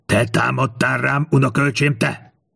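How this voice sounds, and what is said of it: Strained hoarse shouting voice. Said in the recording (Hungarian): “Kiáltotta Verika az erőlködéstől reket hangon.”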